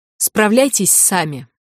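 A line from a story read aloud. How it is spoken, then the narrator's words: Snapping over shoulder. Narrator (Russian): огрызнулась через плечо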